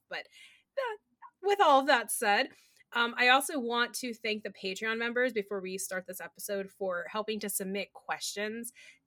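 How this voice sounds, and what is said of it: Slightly rough, hoarse voice. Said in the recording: “if my voice is a little rough, that's why I have the residual cough”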